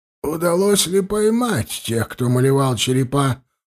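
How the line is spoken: Creaky voice. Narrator (Russian): проскрипел Рашна

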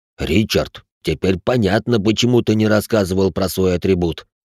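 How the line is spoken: Admiring deep voice. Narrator (Russian): восхищенно пробасил инвалид

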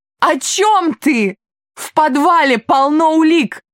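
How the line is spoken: Shouting. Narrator (Russian): закричала

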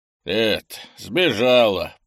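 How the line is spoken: Grumbling. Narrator (Russian): проворчал Крис

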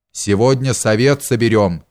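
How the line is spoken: Plain. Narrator (Russian): сказал царь

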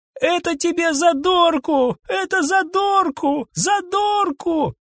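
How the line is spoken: Boy shouting. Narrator (Russian): крикнул мальчик

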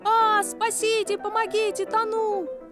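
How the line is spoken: Full-force scream. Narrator (Russian): Что было силы, неосторожный закричал

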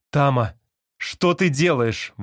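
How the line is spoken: Exclaimed. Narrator (Russian): воскликнула Марни

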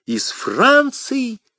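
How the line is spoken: Excited exclamation. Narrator (Russian): воскликнул Бекингем, забывая все на свете и думая только о том, от кого это письмо

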